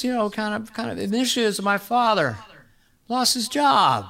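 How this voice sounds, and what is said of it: Joe Biden impression. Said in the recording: “do an impression of Biden ... when you hear someone do it, you go, that's it ... Yeah, that's it.”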